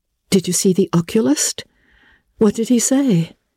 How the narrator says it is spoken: asked Anne anxiously

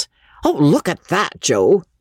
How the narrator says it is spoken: the young showman exclaimed, without too much elegance

